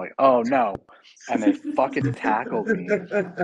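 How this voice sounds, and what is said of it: Usual voice. Nothing is said of it.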